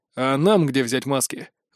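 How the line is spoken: Sigh. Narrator (Russian): вздохнул Лютес

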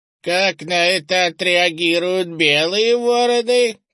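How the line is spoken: Creaky elder's voice. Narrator (Russian): проскрипел второй старейшина

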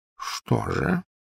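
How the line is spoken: Quiet question. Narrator (Russian): тихо спросил Дамблдор

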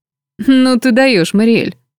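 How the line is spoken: Laughing male voice. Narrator (Russian): рассмеялся мужской голос

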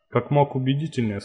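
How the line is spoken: Plain. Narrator (Russian): сказал Гоша

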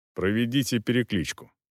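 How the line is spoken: Dry commanding gentleman. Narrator (Russian): сухо велел кавалер

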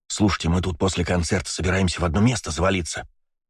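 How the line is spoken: Conspiratorial tone. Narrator (Russian): заговорщическим тоном сказал Костян

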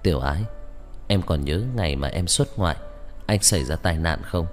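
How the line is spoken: Slightly hesitant voice. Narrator (Vietnamese): âm thanh có chút ngập ngừng

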